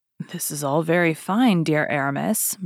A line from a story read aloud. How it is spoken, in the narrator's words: murmured D'Artagnan